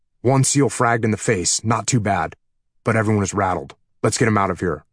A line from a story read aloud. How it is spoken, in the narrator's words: replied the chief